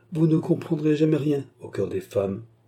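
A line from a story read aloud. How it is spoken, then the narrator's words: Cold reply. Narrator (French): répondit froidement le baronnet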